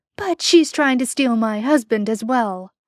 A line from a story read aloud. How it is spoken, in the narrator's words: he would complain loudly